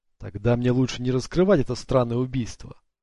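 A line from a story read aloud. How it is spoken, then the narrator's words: Plain. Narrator (Russian): сказал Ник наконец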